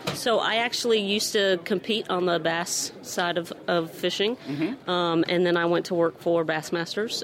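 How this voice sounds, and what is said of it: Southern-style twang. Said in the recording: “is it all those bass, like BASS tournaments that ... give you the twang?”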